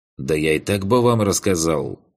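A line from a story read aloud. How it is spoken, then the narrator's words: Snorting. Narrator (Russian): хмыкнул Алекс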